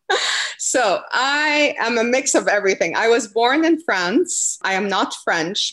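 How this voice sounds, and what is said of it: Noticeable foreign accent. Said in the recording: “I think everyone's picking up on your accent a little bit.”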